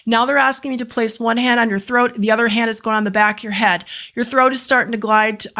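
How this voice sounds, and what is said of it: Very fast speech. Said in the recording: “I'm talking so fast.”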